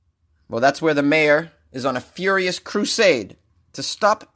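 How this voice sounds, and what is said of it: Usual voice. Nothing is said of it.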